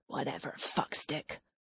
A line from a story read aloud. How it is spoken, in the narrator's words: Jack mutters